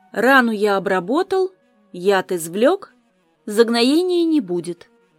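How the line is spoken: Calm report. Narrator (Russian): отчитывался спокойно

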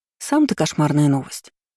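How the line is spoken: Snorted. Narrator (Russian): фыркнула в сторону приоткрытой балконной двери

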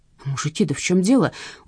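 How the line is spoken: Surprised muttering. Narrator (Russian): удивленно бормотал задержанный

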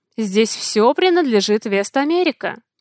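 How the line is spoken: Dry fatherly correction. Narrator (Russian): сухо поправил отец

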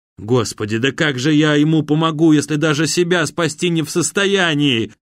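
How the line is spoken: Shout. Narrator (Russian): закричал Харон

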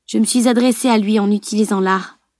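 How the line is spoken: Louder voice. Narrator (French): continua-t-elle d'une voix plus forte

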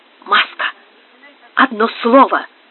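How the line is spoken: Whispered. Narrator (Russian): шепнул он

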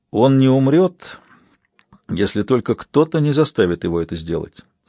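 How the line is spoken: Plain. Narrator (Russian): сказал тогда Луис

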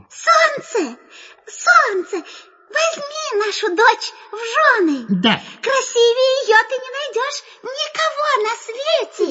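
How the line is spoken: Tender squeaky voice. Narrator (Russian): мышь-мать пропищала нежным голоском

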